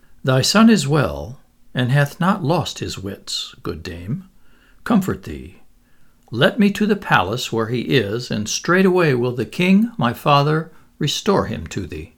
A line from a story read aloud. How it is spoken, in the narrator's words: The prince said gently